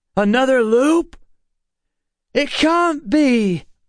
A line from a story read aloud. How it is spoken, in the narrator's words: Emma shouted back